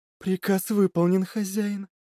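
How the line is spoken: Whisper. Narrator (Russian): прошептала Лилит

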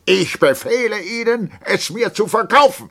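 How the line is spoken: Shouting. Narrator (German): der Hauptmann, taumelte ein wenig und schrie

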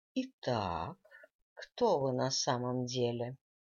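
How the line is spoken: Normal voice. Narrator (Russian): продолжила-таки опять совершенно нормальным голосом

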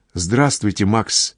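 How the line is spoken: Quiet. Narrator (Russian): тихо говорит Зина

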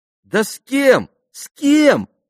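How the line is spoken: Exclamation. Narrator (Russian): воскликнула Лиз

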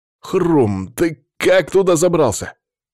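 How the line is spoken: Exclamation. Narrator (Russian): воскликнул

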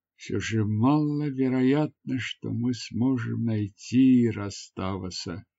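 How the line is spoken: Sad. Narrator (Russian): печально сказала она

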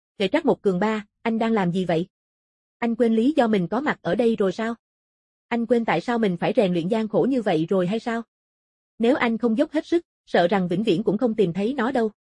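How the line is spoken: Cold question. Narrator (Vietnamese): Lữ Cánh Nam lạnh lùng hỏi

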